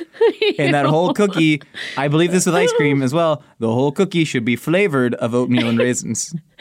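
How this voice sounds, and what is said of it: Weird voice, bad Adam Sandler-like. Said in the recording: “You sounded like ... Adam Sandler. ... Really bad Adam Sandler. ... I was just making a weird voice.”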